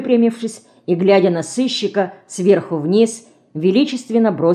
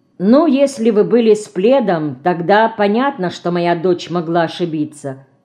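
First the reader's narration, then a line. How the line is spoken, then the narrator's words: Calm remark. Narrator (Russian): спокойно заметила Марина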